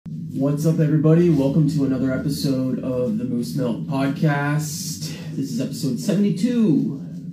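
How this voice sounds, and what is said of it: Sick voice, clearing throat. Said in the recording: “apologize for my voice. I have been sick all week, so I may be clearing my throat a little bit and coughing”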